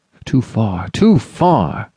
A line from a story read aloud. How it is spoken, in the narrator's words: exclaimed the goodman